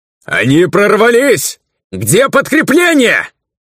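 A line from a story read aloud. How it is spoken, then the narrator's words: Despairing shout behind wall. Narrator (Russian): Обреченно выкрикнул кто-то за стеной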